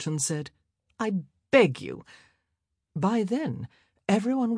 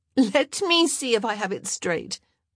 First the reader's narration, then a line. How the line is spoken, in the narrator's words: Eloise said with a laugh